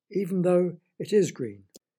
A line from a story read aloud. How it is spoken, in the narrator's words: cried Charlie